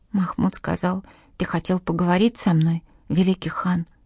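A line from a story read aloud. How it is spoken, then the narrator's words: Boy whispering. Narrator (Russian): прошептал мальчик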